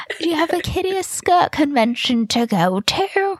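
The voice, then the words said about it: Put-on prim English accent. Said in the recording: “I can't do her accent ... I love that you made her like a Cockney ... she has like the most prim accent ... a mocking voice of an English person ... It's very posh”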